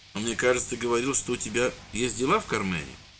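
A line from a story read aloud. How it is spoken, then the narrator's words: Gentle question. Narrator (Russian): ласково спросил священник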